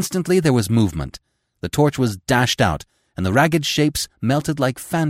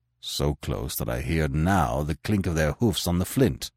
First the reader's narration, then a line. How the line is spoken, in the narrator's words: answered Conan grimly